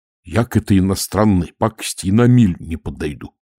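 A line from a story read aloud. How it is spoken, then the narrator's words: Sergeant's gruff mumble. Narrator (Russian): буркнул сержант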